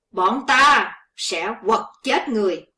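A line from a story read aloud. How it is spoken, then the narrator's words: Two youths shouting together. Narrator (Vietnamese): Hai gã thiếu niên cùng quát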